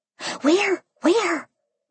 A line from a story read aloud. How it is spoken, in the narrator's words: Mimi whispered back, hiding her mouth behind a prawn